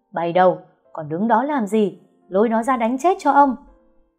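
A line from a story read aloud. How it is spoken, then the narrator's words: Yelling. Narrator (Vietnamese): Ông Hạnh gào lên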